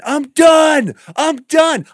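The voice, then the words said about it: Yelling loudly. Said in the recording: “I'm yelling”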